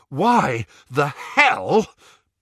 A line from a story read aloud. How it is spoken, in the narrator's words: panted Ron